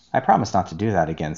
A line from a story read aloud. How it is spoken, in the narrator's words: said Peter